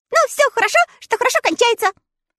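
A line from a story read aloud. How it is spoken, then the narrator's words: Cheerful agreement. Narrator (Russian): весело согласился Татошка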